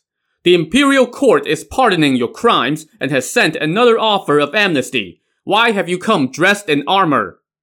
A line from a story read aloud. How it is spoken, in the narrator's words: one of his men to shout down to the bandits